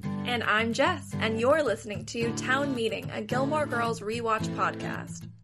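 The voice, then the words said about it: Sexy early-morning voice. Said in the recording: “sexy voice ... today. ... It's early, people.”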